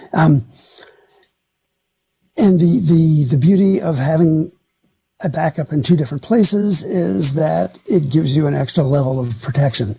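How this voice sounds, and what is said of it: Slightly hoarse voice. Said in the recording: “excuse my voice here. I spent a lot of time in meetings today and talking, so I'm a little hoarse.”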